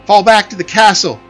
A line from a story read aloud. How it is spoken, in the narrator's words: She shouted